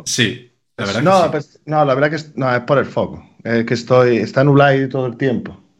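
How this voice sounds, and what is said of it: Put-on Galician Spanish accent. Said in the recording (Spanish): “¿por qué pones ese acento, tío? ... la gente de Galicia te va a dar caña en los comentarios ... me encanta lo gallego”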